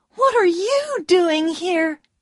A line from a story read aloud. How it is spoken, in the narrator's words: she cried